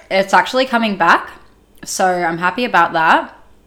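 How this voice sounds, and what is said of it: Husky, partly lost voice. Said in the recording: “I've lost my voice a little bit ... if you're hearing me a little bit husky ... voice was like really sexy”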